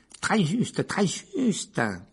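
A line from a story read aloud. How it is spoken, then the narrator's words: Tiny squeak. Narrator (French): couina le minuscule professeur Flitwick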